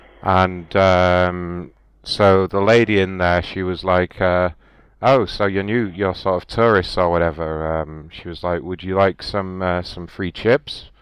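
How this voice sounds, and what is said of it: British accent. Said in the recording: “we're visiting from Great Britain. You might be able to tell from my accent.”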